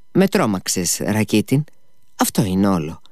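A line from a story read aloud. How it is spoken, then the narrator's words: Smiling. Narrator (Greek): είπε η Γκρούσεκνα και άρχισε χαμογελαστή στον Αλλιώσα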